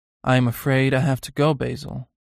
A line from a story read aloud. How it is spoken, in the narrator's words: he said in a quiet voice